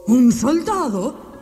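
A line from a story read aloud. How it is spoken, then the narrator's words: King exclaiming. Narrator (Spanish): exclamó el rey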